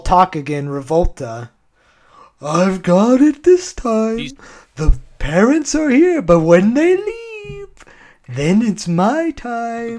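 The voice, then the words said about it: Imitates a cartoon character's voice. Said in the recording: “your Revolta impression is astounding. Some of the best work I've ever heard you do on this podcast.”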